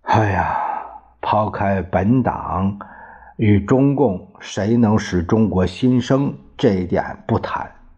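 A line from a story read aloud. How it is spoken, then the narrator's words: Sighing. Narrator (Chinese): 张治中最后叹了一口气，他说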